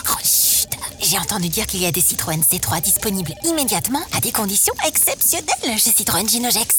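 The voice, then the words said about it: Whispering. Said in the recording (French): “pourquoi tu chuchotes ?”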